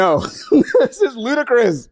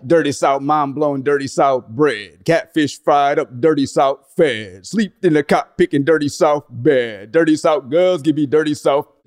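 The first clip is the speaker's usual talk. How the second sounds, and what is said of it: Imitates another person's voice, rapping. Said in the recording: “Let's see if I can imitate the artist here. ... Sorry for imitating your voice.”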